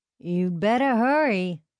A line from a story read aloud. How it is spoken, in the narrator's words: Caden said with a lazy southern drawl